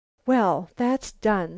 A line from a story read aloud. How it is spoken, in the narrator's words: sighed Lucile